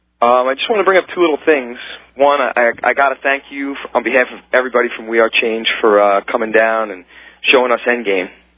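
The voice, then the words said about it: Strained, worn-out voice. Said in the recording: “apologize for my voice. A little bit too much screaming this weekend.”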